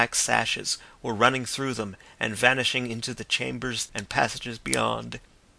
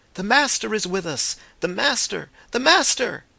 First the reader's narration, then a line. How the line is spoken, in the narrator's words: The shout swept athwart the lake of faces like a wave, broke against the distant cliff of ruins, and came back in a welter of cries